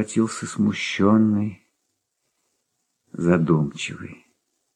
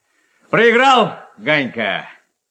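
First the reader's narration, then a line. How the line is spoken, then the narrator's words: Shout in passing. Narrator (Russian): крикнул он, проходя мимо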